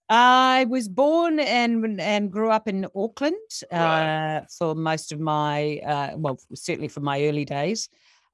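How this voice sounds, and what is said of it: New Zealand accent. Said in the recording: “I can hear from your accent, so Kiwi.”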